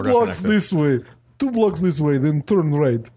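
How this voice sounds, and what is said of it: Put-on Russian accent. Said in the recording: “your Russian accent is 12 times better than mine ... he's very polished”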